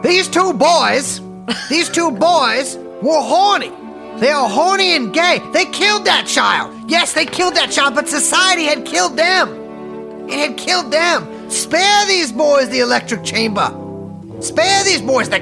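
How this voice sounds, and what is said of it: Southern courtroom lawyer voice. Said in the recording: “do the Clarence Darrow voice ... he's more like Mid Atlantic ... I can do the Southern”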